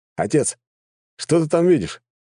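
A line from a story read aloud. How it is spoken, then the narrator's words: Son exclaiming. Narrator (Russian): воскликнул один из старших сыновей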